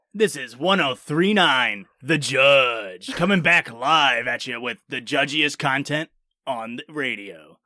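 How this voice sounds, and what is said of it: Radio DJ announcer voice. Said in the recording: “doing a radio voice?”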